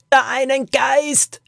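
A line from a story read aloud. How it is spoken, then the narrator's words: Shouted over cave noise. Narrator (German): schrie sie ihm durch den Lärm in der Höhle zu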